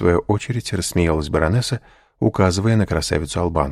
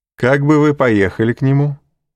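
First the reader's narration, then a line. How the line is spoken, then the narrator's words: Laughing. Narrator (Russian): сказал, смеясь, Дебре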